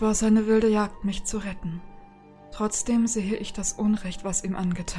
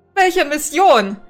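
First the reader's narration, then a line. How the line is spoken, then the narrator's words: Shouted at someone. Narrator (German): schreit Althea den Avatar an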